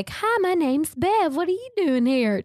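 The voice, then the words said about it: Put-on country accent. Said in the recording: “She's got a fun country accent.”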